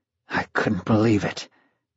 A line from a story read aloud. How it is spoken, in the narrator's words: John Smurl had anxiously told his son